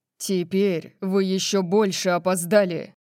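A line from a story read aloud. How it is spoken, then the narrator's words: Barking. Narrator (Russian): Рявкнул Орион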